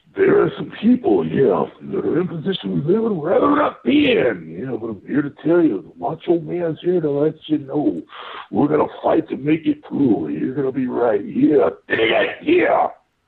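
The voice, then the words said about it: Imitates a wrestler's voice. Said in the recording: “my Macho Man impression... I go 7 out of 10 on that impression.”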